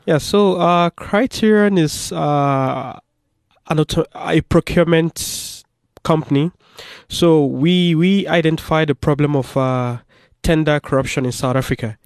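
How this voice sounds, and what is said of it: Noticeable foreign accent. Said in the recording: “you can hear he's got an accent”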